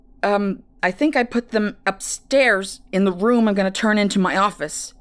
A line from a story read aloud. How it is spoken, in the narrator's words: he responded, grunting as they struggled to turn the corner